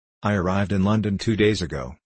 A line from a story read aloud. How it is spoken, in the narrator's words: said the American